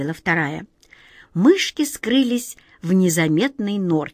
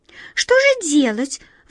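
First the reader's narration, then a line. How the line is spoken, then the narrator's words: Excited squeak. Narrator (Russian): взволнованно пискнула первая мышка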